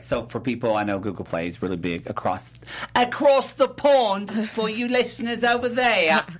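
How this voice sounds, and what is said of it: Put-on foreign accent. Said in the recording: “I know my accent's amazing.”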